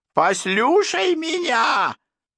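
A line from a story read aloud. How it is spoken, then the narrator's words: Yelling through teeth, comic impression. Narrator (Russian): Завопив сквозь нижние зубы, как салонный комик, изображающий Кёрка Дагласа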